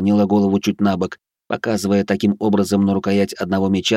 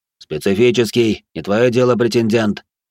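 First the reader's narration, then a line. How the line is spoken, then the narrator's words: Merchant's snort. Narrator (Russian): хмыкнул торгаш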